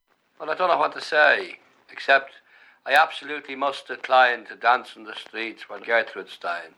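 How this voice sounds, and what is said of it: Irish accent, toothless-sounding speech. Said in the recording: “It's not so much the Irish accent as the fact that I've lost my... I used to talk nicer when I had me teeth.”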